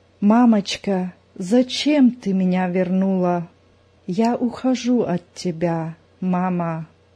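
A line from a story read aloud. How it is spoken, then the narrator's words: Barely audible, weak. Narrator (Russian): едва слышно проговорила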